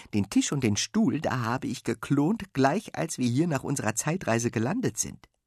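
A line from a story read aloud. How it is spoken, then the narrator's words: Giggling. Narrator (German): kichert Sven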